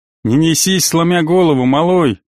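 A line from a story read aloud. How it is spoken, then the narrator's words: Smirking grunt. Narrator (Russian): хмыкнул тот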